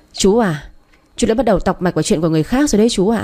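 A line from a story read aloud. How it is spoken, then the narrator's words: Sarcastic laughing voice. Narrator (Vietnamese): Tiểu Mỹ bật cười, nói giọng mỉa mai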